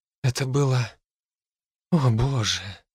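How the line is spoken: Breathy exhale. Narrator (Russian): выдохнула она

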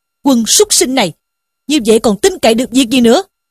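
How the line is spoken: Angry scolding shout. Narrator (Vietnamese): Sử Tiến bần bần quát mắng rằng

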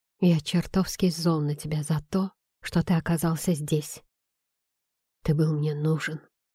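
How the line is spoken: Whisper. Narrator (Russian): прошептал я

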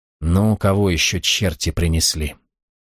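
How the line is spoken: Muttered. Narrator (Russian): Пробормотал

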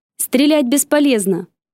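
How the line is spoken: Shouting. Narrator (Russian): выкрикнула она

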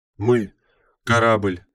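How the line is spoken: Breathless. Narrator (Russian): выдохнула Чи-32-бета

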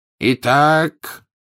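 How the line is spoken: Ringing voice continuing. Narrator (Russian): звенящим голосом продолжал Дамблдор

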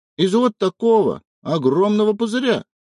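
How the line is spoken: Agreeing with happy giggle. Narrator (Russian): поддакнула Поля и радостно захихикала

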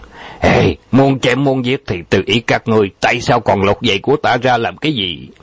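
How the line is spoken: Angry outburst. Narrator (Vietnamese): trừng mắt lên tức giận

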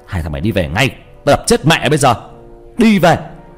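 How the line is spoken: Very loud shout. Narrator (Vietnamese): Anh hét lên to lắm

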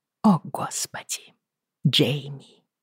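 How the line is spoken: Tearful whisper. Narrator (Russian): прошептала я сквозь подкатившие слезы

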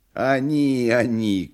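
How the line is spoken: Bleating goat-like singing. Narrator (Russian): козлиным голосом запел длинный клетчатый

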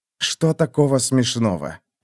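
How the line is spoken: Quiet grating voice. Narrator (Russian): проскрежетал он тихо

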